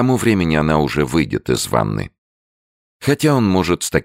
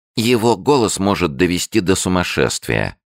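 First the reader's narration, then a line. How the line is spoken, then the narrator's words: Plain. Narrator (Russian): сказала Динни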